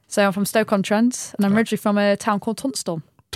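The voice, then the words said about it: Stoke-on-Trent English accent. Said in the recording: “your accent ... I do say cook and book because that's how you say it.”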